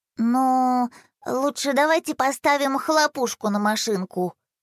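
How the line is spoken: Hesitant suggestion. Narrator (Russian): неуверенно предложил Рома

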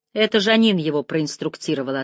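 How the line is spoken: Curt, clipped. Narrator (Russian): отрывисто бросил он

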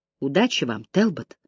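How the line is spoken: Quiet. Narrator (Russian): тихо сказал он

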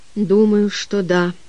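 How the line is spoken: Quiet reply. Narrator (Russian): также тихо отозвался Олвин

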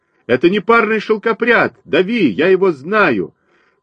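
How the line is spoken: Shouted. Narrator (Russian): крикнул один из них

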